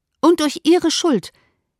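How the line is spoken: Emphatic call. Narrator (German): rief Elizabeth mit Nachdruck

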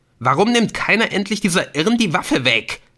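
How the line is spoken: Shouted. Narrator (German): schrie Ortolan

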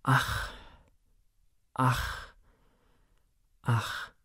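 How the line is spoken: Repeated sighing. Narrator (German): seufzte einmal übers andere

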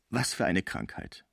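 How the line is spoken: Plain. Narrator (German): sagte Pons

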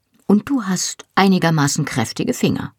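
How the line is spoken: Plain question. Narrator (German): fragte

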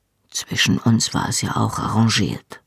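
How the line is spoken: Quiet. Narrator (German): sagte er leise

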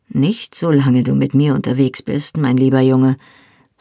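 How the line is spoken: Uncle's mocking voice. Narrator (German): sagte die Stimme seines Onkels spöttisch

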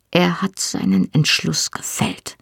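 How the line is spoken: Whisper. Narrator (German): flüsterte Mrs

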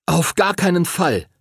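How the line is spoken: Calling out. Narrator (German): rief Henry

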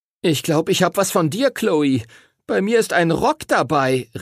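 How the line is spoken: Horrified cry. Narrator (German): rief Timothy entsetzt

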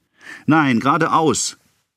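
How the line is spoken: Called out. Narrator (German): rief dieselbe Stimme

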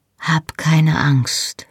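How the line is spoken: Close whisper. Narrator (German): flüsterte er mir ins Haar

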